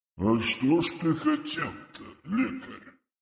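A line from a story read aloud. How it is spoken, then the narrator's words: Deep, calm, ancient drone. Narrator (Russian): прогудел с философским спокойствием тысячелетнего существа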